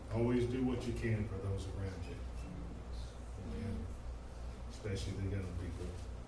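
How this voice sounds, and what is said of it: Choked-up emotional voice. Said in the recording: “I'm just getting a little bit choked up.”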